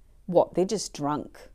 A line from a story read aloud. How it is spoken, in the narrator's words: others sneered